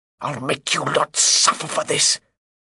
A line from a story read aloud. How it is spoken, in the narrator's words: Himmelstoss did manage to snarl